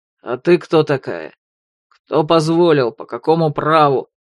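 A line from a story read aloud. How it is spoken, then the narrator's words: Menacing rumble. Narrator (Russian): Пророкотал грозно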